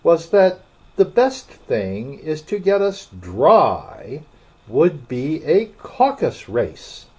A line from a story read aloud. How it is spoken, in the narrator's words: said the Dodo in an offended tone